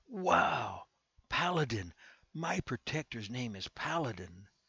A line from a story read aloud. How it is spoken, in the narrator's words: Carter exclaimed